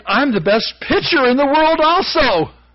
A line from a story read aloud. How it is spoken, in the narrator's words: He exclaimed